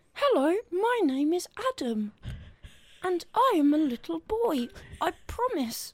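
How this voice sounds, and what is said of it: Put-on little child voice. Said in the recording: “can do the little child voice”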